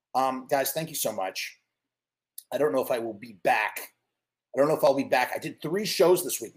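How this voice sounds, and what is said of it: Hoarse, worn-out voice. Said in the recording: “My voice is shredded. I mean, we've done, it was like 7.5 hours of talking”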